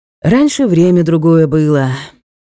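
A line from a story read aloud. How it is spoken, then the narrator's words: Old man's sigh. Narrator (Russian): по-стариковски вздохнул Никита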